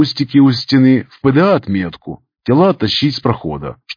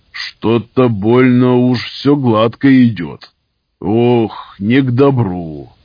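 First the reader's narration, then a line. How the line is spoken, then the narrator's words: Grumbling. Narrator (Russian): Проворчал сталкер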